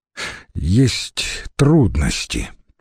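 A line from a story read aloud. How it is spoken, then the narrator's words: Sadly said. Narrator (Russian): печально сказал Трибоний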